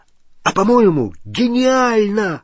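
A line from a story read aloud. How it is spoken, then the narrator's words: Exclamation. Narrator (Russian): воскликнул Рон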